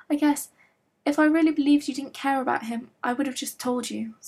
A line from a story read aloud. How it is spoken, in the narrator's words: Stiles blurted out